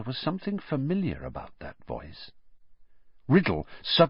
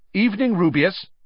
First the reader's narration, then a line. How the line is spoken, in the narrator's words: said Riddle sharply